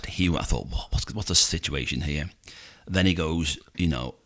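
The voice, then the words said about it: Scouse accent. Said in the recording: “You've really got to stop doing that Scouse accent.”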